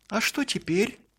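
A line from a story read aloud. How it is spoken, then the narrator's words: Joyful question. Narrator (Russian): радостно спросил Алёша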